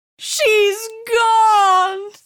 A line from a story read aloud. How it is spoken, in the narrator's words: the woman wailed